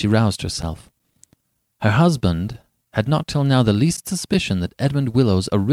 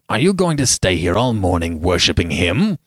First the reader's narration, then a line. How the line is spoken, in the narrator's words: Lord Uplandtowers said roughly